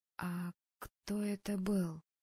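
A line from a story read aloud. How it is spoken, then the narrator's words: Hoarse question. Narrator (Russian): хрипло спросила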